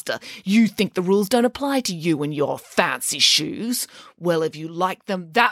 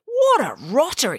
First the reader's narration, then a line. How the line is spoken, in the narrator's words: exclaimed Michael